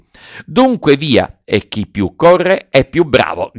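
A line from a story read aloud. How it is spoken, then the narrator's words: Shouted. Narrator (Italian): gridò Pinocchio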